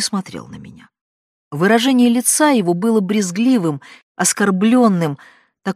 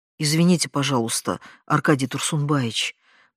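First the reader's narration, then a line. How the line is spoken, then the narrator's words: Muttered. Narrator (Russian): пробормотала я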